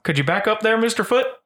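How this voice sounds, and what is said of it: Goofy cartoon character voice. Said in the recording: “good Goofy impersonation”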